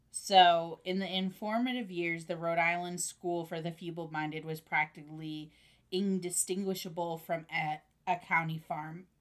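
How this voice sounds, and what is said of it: Slightly hoarse, throaty voice. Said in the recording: “I have a frog in my throat”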